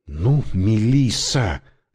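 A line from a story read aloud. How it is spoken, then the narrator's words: Silent inner plea. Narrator (Russian): мысленно взмолился я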